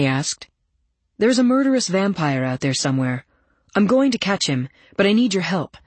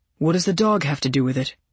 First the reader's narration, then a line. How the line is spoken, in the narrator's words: I sighed